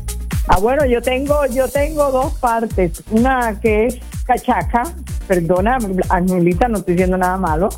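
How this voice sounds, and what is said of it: Colombian coastal Spanish accent. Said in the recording (Spanish): “mi acento es más costeño ... De la costa pura, tropical ... ese acento alegre de siempre ... en la voz siempre refleja la alegría”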